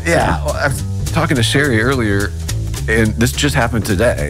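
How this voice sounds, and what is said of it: Slightly congested nasal voice. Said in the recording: “it's allergy season. I hope you can't hear it in my nose voice ... Well, be honest, it's there a little.”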